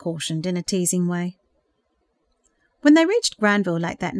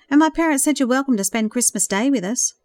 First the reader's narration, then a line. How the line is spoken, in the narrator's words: suggested quickly